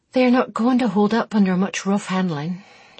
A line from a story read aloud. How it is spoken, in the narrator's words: she sighed wearily